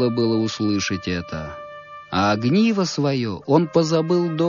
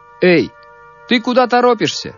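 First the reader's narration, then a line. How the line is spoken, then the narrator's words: Shout. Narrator (Russian): крикнул мальчику солдат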